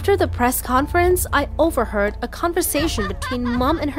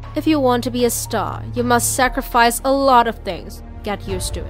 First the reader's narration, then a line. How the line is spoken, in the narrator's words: she coldly replied